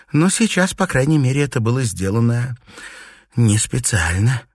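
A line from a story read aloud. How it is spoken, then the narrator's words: Sighing. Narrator (Russian): вздохнула Пенелопа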